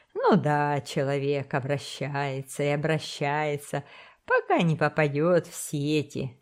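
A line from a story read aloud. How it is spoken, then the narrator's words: Laughing. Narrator (Russian): смеялся боцман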